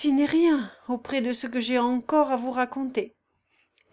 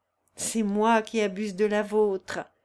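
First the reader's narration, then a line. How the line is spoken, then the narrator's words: Plain. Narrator (French): répondit Consuelo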